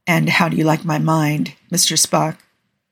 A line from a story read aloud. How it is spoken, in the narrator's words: murmurs